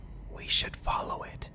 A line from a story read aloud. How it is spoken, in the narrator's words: Jim whispered